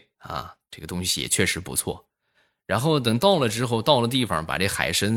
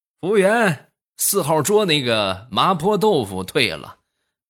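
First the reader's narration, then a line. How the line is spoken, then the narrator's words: Loud, complaining. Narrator (Chinese): 老大爷冲着这个服务员就嚷嚷道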